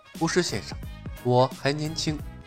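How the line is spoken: Soft voice. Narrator (Chinese): 轻声道

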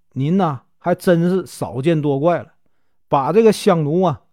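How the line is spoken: Laughing. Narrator (Chinese): 公子笑着说

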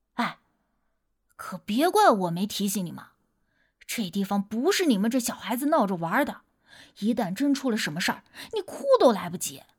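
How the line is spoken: Persistent, lowered voice. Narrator (Chinese): 不死心的……压低了声音说道

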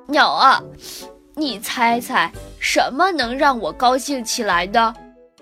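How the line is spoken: Sniffling. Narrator (Chinese): 一边吸着鼻子，一边问大鸟

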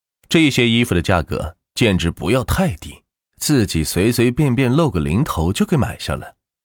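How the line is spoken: Calm, indifferent. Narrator (Chinese): 万钱淡淡的说道

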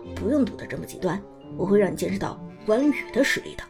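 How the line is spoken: Laughing, dismissive. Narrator (Chinese): 苏哲笑着摇头道

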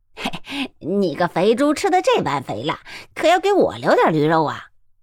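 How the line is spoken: Cheerful, laughing. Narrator (Chinese): 那瞎子笑嘻嘻的道

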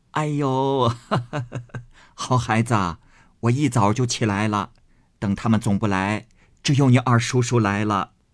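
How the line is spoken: Old woman, laughing. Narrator (Chinese): 贾母笑着道

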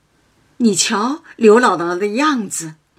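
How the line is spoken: Laughing. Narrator (Chinese): 宝玉向黛玉笑道

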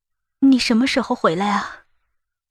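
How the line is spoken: Trembling, emotional question. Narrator (Chinese): 我再也忍不住，声音微颤着问道

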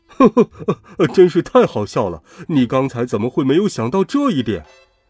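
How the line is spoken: Muffled hearty laughter. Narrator (Chinese): 爸爸在口袋里面哈哈大笑

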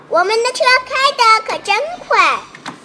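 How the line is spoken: Shouting excitedly. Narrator (Chinese): 米菲大叫

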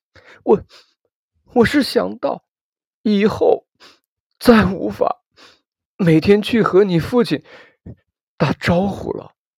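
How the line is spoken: Sobbing like a child. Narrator (Chinese): 母亲这才像个孩子一样，边抽泣边说

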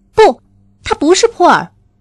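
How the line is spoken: Sudden, loud. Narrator (Chinese): 斯塔莎突然大声说

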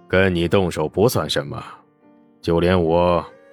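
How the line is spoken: Deep, grave. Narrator (Chinese): 他沉声道

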